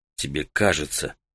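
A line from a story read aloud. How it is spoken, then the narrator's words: Hoarse wheeze. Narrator (Russian): Так же прохрипел Таита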